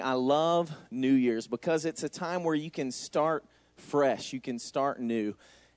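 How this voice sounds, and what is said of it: Southern US Georgia accent. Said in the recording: “As you can tell by my accent, I'm not from here. ... I'm from Georgia, actually.”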